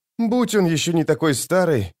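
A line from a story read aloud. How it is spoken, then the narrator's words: Furtive sigh. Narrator (Russian): вздохнула украдкой Цири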